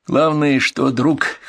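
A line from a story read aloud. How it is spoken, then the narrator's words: Officer chuckling. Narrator (Russian): хохотнул оперативник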